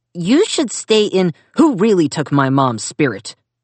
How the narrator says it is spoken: Zack snapped, jaw and neck quivering with tension

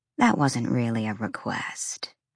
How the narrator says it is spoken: Fury said, her voice lethally soft

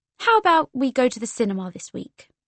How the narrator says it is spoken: she said

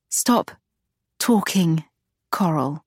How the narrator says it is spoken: Agatha begged

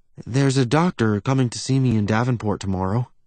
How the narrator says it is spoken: she says quietly

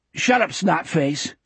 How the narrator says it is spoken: Sonny snapped

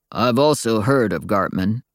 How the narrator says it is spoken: said Daryl, his voice so deep

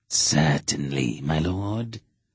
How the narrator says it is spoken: Idas said in his sibilant, rasping voice

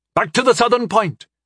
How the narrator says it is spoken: she called out to the wing

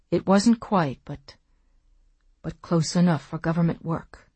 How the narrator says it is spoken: he said in a low, hoarse voice

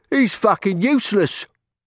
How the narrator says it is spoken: another boy called out

